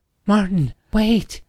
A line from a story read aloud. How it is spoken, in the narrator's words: Emily cried out